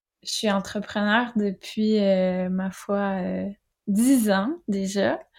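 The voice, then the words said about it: Québécois French accent. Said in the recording (French): “vous l'entendez peut-être à mon accent. Je suis québécoise.”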